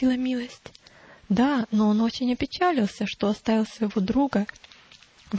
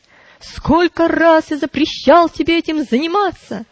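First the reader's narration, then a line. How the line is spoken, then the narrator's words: Shout. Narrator (Russian): Вредитель закричал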